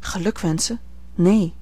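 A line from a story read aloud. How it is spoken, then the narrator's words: Quick and soft reply. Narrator (Dutch): hernam zij ras en zacht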